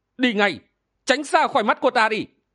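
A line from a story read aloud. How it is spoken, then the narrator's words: Loud shout. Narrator (Vietnamese): chàng lại quát lớn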